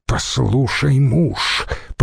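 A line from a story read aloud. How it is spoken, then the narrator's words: Menacing hiss. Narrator (Russian): прошипела она, грозно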